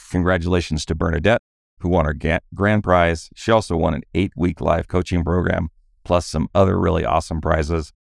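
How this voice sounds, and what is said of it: Tired, deeper than usual voice. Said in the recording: “radio voice ... my voice does get a little deeper when I get more tired, and I was on a late plane last night”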